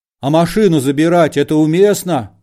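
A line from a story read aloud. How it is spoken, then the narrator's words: Tactless shout. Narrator (Russian): закричал нетактичный Балаганов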